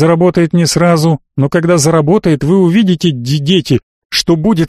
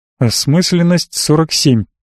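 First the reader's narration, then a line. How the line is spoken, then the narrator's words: Quiet. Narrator (Russian): негромко сказал Денис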